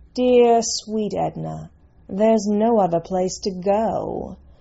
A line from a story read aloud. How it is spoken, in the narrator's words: drawled Lady Caro